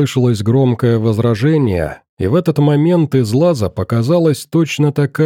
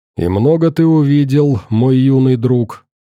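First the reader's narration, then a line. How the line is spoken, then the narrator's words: Plain. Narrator (Russian): спросил первый пришедший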